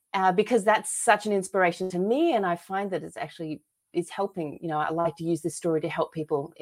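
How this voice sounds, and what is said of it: Australian accent. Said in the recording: “you may guess from my accent, I'm originally from Australia”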